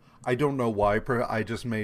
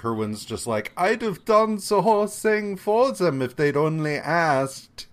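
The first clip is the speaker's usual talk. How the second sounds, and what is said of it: Vaguely German accent, deliberately bad. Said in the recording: “made Professor Kerwin vaguely Germanic ... That is a terrible accent.”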